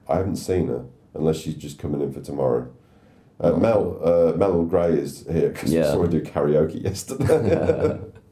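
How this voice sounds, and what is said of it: Strained, worn-out voice. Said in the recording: “My voice is kind of... on its way ... both of our voices are just... ... I can hear my vocal cords being all fucked up”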